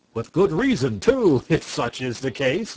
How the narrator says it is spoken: laughed Marvel

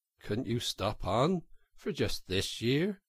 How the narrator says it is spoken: suggested the water rat wistfully

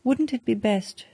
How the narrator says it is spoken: she continued, speaking nervously

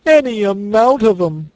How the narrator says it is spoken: sobbed Toad

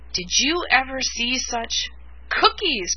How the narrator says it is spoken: cried Billy

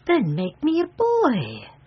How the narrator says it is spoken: exclaimed the fairy eagerly

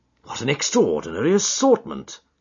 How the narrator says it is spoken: I exclaimed

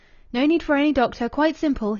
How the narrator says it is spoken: he called out

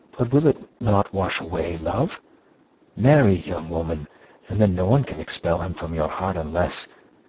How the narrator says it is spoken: she added, whispering

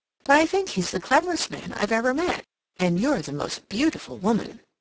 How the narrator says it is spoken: she exclaimed

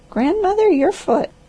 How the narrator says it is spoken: cried the old woman

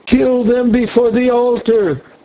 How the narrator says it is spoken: they shouted

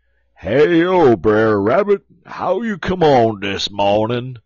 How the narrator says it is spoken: Brer Bar, he holler out

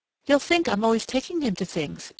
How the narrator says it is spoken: said brightly

